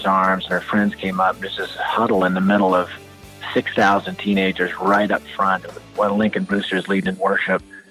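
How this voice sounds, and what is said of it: Speaks with a noticeable accent. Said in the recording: “Love that accent. Love that accent.”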